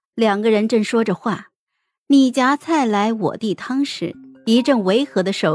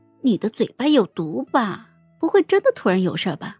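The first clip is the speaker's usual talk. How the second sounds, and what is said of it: Quiet, soft questioning voice. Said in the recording (Chinese): “小声的问他”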